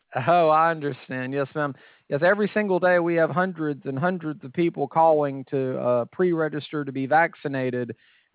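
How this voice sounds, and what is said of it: Southern American accent. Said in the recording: “I was going to say South Carolina, but just by your accent.”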